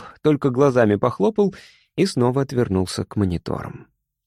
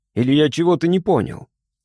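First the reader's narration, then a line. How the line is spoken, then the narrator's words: Amused snort. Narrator (Russian): Мишка хмыкнул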